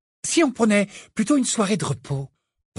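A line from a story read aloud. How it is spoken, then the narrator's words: Cheerful suggestion. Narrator (French): proposa Hermione d'un ton allègre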